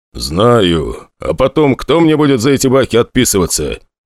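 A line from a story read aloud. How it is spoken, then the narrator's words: Grumble. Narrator (Russian): вновь проворчал Велинов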